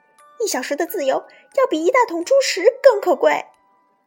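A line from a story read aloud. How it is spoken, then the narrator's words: Shouted. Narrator (Chinese): 母鹅大喊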